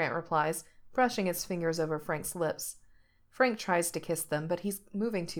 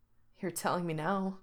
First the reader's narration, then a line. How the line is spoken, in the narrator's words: Frank points out breathlessly